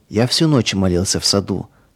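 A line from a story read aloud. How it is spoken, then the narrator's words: Plain. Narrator (Russian): сказал Павел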